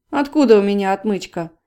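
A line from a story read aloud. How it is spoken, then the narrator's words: Snorted. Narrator (Russian): фыркнул Василий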